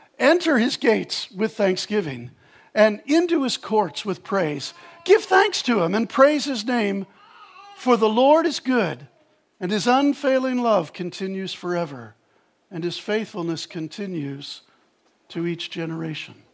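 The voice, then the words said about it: Overly dramatic recitation voice. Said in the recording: “in my overly dramatic voice”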